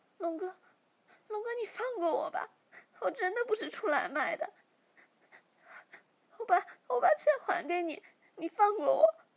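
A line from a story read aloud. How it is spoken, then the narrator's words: Crying, pleading. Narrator (Chinese): 小喵马上哭着求饶说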